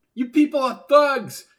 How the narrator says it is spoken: she yelled in the elevator

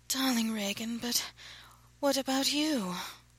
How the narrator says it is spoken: she breathed

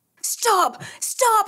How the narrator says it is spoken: he yelled

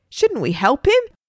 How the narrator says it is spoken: shouted a woman

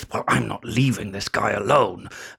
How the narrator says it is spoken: Steve will hiss through gritted teeth

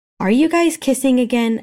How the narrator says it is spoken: Elle called out, tone bordering on disgust

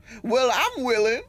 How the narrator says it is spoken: shouted Precious

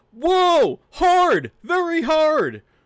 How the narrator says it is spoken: when the fire hose shoots him up in the air, he just yells

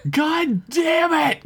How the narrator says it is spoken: Kayla screamed

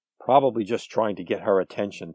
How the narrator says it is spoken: Tom sighed

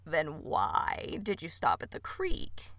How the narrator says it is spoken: the toad croaked back

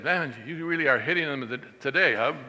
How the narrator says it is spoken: He said

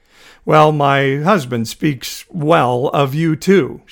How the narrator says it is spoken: lied, unable to stifle a slight laugh

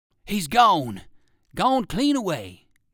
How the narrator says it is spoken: exclaimed Bowser

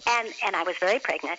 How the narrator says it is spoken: he said

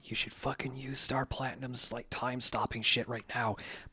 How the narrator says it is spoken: Rohan leans in to whisper in Jotaro's ear

